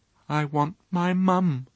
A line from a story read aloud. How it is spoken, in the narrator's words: said very quietly